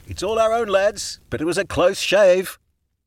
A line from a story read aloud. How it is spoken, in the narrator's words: Juniper shouted